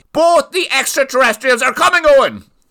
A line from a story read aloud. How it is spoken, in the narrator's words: yelled Francie